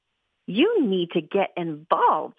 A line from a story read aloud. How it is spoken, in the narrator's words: Lucy exclaimed